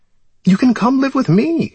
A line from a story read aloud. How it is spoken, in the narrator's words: she pleaded